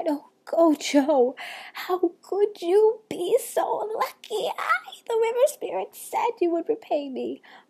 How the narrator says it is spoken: she cried

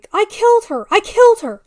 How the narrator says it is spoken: Halting, gasping, I told her

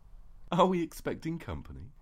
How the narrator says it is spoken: giggled

